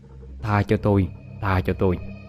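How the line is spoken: Terrified mumbling. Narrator (Vietnamese): Chú Chính đang ngồi co ro ở góc giường, mặt không còn một chút máu, miệng thì lẩm ba lẩm bẩm

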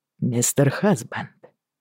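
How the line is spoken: Quiet call. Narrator (Russian): тихо позвал Джейми

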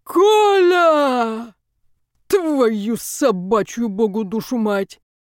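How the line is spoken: Loud drunken shout. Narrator (Russian): закричал зычным пьяным голосом

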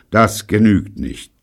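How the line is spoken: Firm voice. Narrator (German): sagte er mit fester Stimme

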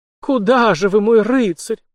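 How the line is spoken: Half-moaning young woman. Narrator (Russian): почти простонала девушка

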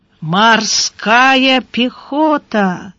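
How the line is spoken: Drawn out, odd intonation. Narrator (Russian): протянул Гарайло с непонятной интонацией

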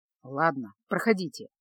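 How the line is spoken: Grumbling mutter. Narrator (Russian): буркнул

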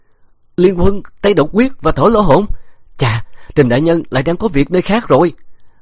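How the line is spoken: Terrified exclamation. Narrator (Vietnamese): Miêu Nam quả là bị dọa cho mất mật, kinh hãi thốt lên

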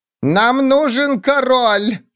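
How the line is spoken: Shouting. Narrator (Russian): крикнула Сквиш

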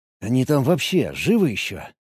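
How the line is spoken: Muttered. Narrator (Russian): пробормотал я

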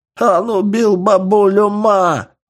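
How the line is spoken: Sobbing old man. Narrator (Russian): рыдая сказал один из стариков

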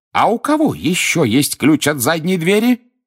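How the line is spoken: Shrieking cook. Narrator (Russian): взвизгнула кухарка

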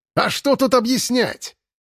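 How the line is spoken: Displeased barking man. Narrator (Russian): недовольно гаркнул серый мужчина

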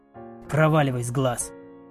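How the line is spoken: Rude. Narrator (Russian): Все так же грубо проговорил он

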